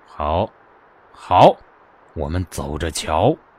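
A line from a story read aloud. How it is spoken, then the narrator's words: Cold, menacing. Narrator (Chinese): 傅君莫眼中猛然闪过森寒的杀机，冷冷道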